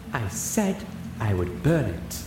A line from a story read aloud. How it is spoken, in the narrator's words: Rarity said calmly